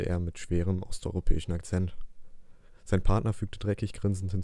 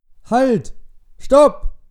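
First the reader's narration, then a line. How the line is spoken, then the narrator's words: Surprised shout. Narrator (German): rief Ron, überrascht von seinem unerwartet aufkeimenden Heroismus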